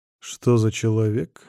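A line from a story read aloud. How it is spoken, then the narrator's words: Calm question, hidden pain. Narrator (Russian): спокойно спрашиваю, хотя в сердце вонзается острый ледяной шип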